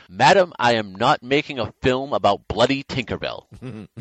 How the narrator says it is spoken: An exasperated Attenborough snapped back

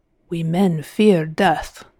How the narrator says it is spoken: Hazel could imagine Galvini saying in a thick Italian accent

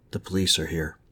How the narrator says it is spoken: Speaking softly, she said

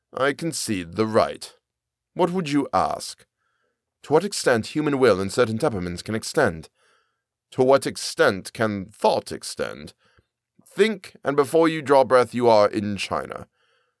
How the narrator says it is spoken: said dryly

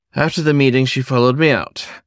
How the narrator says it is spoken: he sighed

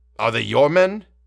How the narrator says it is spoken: he repeated impatiently as Ulrich did not answer

